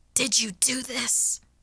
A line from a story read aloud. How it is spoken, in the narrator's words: I snapped hoarsely